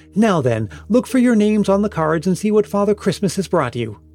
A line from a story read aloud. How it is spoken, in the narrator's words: Braxton exclaimed